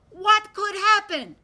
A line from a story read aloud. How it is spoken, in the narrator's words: I shouted back